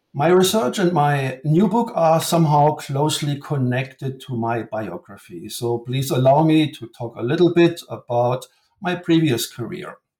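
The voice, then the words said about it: German accent. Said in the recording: “my accent, I come from Germany”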